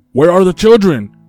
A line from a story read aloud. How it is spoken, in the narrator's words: She shouted